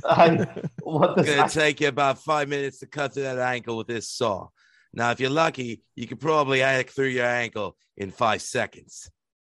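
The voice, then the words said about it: Poor put-on Australian accent. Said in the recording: “That was a horrible Australian accent, but I did my best.”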